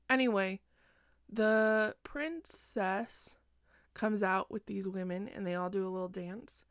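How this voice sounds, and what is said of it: Sleepy, slightly slurred speech. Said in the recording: “I'm slurring my words. I'm a little sleepy. It's kind of late.”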